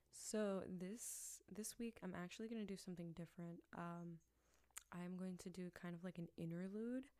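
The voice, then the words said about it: Whispering. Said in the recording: “I'm kind of whispering because he's sleeping”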